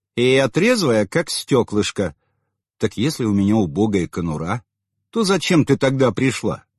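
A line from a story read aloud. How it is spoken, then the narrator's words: Plain. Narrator (Russian): спросил я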